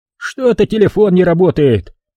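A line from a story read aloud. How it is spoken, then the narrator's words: Irritated. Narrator (Russian): раздраженно сказал хозяин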